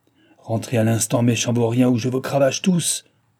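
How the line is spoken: Thunderous shout. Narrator (French): leur cria-t-il d'une voix de tonnerre

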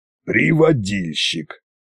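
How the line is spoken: Snorting. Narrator (Russian): хмыкнул царь-батюшка

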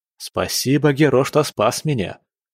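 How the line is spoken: Snapping retort. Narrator (Russian): огрызнулся он

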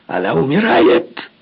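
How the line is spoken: Yelling. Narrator (Russian): заорал я

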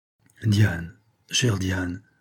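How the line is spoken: Murmured. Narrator (French): murmura le comte

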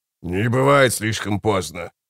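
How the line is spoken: Growl. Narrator (Russian): прорычал Баргаст

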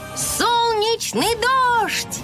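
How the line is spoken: Shouted out. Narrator (Russian): выкрикнула Стелла

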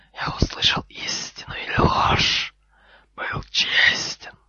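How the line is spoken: Hissed reply. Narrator (Russian): прошипел в ответ Гарри

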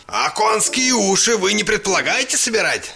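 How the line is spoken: Father's quavering shout. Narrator (Russian): закричал папа дребезжащим голосом

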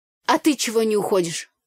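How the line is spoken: Rude question. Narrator (Russian): грубо поинтересовалась я

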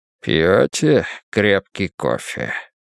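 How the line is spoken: Low husky purring voice. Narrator (Russian): Голос у Ангелидиса был низкий и хрипловатый, точно мурлыканье огромного кота

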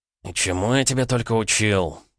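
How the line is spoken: Groaning old man. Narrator (Russian): простонал старик

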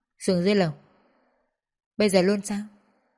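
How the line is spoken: Cold speech. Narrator (Vietnamese): chỉ lạnh lùng nói

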